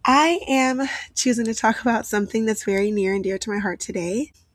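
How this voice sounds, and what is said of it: Raspy, recovering voice. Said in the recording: “If you notice a rasp to my voice, it's not me trying to be cute. I am recovering from losing my voice”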